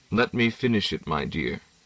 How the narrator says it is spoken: he said as quietly

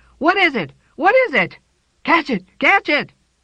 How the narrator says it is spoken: first they screamed, and then they shouted

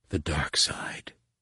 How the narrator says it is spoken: He whispered

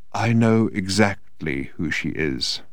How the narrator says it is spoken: said Odin in a quiet but distinct voice

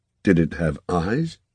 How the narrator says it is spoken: his voice sticking in his throat, he said

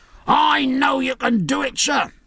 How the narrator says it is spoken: cried one with a bloody dressing round his upper arm

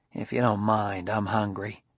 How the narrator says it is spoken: Clusar muttered

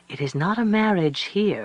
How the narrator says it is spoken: one of them said kindly

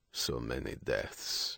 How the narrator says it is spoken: Lepikov muttered

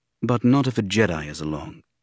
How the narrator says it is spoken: Obi-Wan said wearily

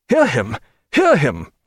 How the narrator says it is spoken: cried Mr

